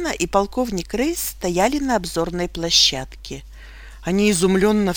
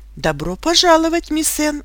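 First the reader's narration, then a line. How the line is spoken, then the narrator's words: Exclamation. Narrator (Russian): воскликнул полковник Рейс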